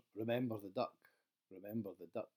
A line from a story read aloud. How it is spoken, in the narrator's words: a disturbing inner voice often whispers